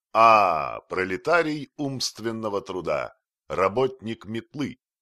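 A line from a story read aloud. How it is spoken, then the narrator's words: Exclaimed. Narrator (Russian): воскликнул Остап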